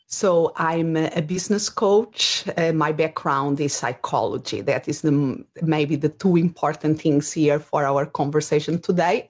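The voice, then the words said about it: Portuguese accent in English. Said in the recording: “my accent, originally I'm from Portugal. And that is, as far as my accent is a little bit different than people maybe are used to.”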